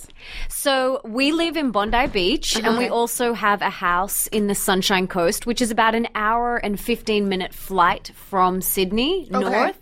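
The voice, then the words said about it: Australian accent. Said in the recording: “So I hear an amazing accent. ... I'm from Australia.”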